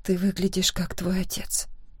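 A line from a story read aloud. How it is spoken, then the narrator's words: Soft whisper. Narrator (Russian): тихо прошептала я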